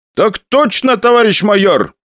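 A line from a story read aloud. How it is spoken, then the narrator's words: Loud. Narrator (Russian): громко произнес я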